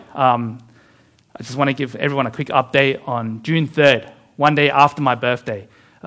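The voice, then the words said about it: Tired, low-energy voice. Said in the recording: “as you can tell by my voice and my energy levels, I've only been running on 2 to 3 hours of sleep every day”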